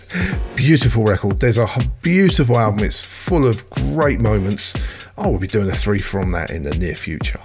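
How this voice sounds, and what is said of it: Strained, failing hoarse voice. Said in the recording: “my voice is going a bit here”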